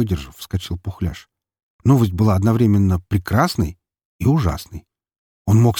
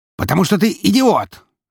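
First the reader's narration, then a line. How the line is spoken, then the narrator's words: Barked. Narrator (Russian): рявкнул Губанов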